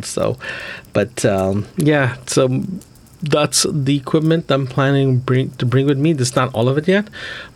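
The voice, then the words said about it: Congested voice from a cold. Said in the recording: “I have a cold. I'm just getting out of my cold.”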